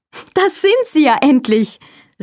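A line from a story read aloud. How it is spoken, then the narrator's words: Shout. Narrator (German): rief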